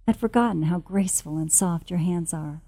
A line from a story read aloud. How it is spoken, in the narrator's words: he murmuring